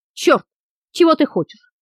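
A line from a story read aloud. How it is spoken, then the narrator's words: Frightened breathless exclamation. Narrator (Russian): Испуганно выдохнула она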